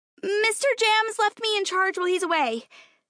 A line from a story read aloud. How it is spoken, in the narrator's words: she shouted up at them